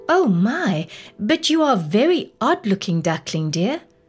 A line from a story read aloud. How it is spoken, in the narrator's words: Mother Duck exclaimed